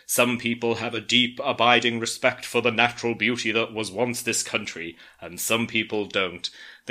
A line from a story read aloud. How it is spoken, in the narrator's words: In a stern voice, the narrator comments